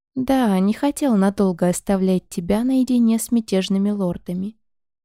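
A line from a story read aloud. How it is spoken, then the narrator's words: Plain. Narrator (Russian): ответил воевода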